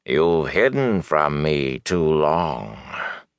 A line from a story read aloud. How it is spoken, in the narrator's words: breath rasping his throat